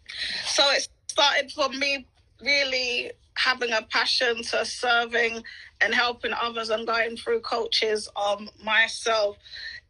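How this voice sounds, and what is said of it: British accent. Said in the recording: “I absolutely love your accent. I always wish that I had a nice British accent.”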